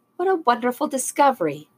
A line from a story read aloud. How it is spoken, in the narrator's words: Miss Lauren exclaimed